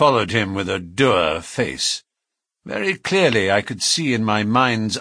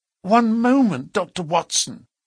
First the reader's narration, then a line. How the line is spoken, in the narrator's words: cried the woman in a pleading voice